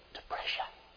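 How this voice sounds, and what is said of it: Whispered word. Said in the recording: “Whisper.”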